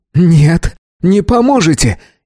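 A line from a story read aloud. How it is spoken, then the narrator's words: Hysterical shriek. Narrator (Russian): истерично взвизгнул землянин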